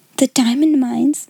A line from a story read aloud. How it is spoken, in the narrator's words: giggled Jessie in a whisper